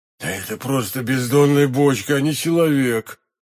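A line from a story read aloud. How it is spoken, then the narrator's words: Host muttering. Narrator (Russian): пробормотал хозяин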